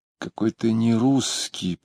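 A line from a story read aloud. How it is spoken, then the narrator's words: Sad speech. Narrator (Russian): печально говорила она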